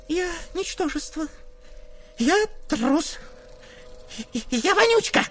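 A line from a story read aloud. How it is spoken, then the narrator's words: Squeaking creature. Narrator (Russian): пискнуло существо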